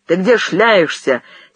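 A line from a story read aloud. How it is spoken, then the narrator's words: Angry question. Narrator (Russian): сердито спросил голос Возвышаева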